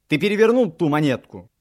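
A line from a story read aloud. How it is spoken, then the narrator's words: Shouting. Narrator (Russian): крикнул я ему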